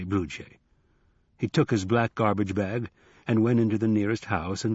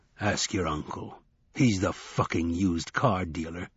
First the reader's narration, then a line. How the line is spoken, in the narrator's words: growled Wednesday